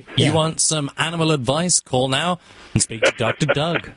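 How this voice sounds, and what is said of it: Speaks with a foreign accent. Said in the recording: “Chicks dig an accent.”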